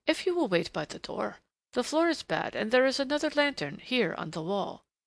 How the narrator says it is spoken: He said very quickly to her in Turkish

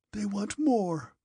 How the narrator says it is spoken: said Napoleon in a hoarse voice

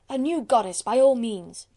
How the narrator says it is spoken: shouted the grave gentlemen of the National Assembly

